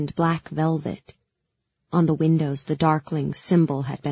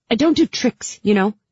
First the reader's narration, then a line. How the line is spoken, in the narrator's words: I snapped